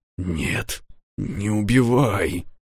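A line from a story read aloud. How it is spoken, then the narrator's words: Whispered. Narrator (Russian): прошептал Джекман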